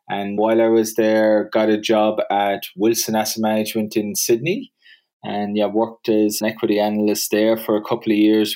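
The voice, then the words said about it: Irish accent. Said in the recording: “the accent will probably give it away, but yeah, I grew up in Ireland”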